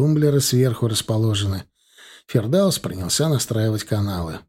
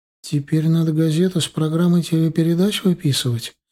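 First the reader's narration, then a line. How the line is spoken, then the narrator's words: Timid question. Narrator (Russian): робко спросила она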